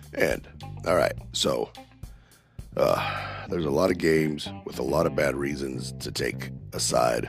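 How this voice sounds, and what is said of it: Sick, under-the-weather voice. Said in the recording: “as you can tell from my voice, I'm still feeling a little under the weather and crappy”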